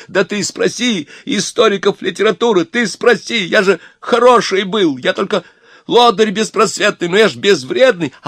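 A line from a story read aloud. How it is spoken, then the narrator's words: Straining shout. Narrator (Russian): Обломов кричал ему, надрываясь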